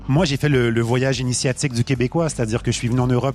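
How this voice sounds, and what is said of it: Québécois French accent. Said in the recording (French): “On le reconnaît à ton accent, t'es québécois.”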